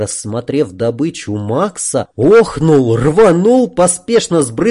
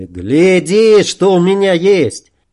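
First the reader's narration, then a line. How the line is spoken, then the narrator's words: Shouted. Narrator (Russian): крикнул Жоре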